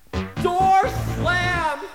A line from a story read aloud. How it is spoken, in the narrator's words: People yell